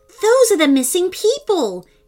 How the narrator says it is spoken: he exclaimed excitedly

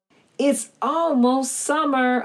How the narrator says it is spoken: I barked

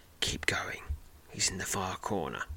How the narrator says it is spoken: a soft female voice subtly whispers in your left ear

